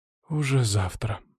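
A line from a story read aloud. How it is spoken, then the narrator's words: Sigh. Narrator (Russian): вздохнула Наталья Викторовна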